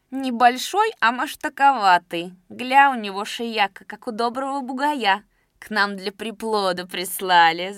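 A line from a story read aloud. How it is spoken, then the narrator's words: Laughing woman. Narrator (Russian): засмеялась одна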